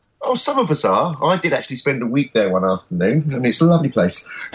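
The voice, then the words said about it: London accent. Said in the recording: “You sound to me like you're in London, from your accent.”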